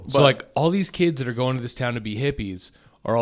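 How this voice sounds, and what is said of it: Usual voice. Nothing is said of it.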